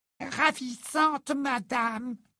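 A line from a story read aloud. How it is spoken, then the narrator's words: Squeaked. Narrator (French): couina Hoquet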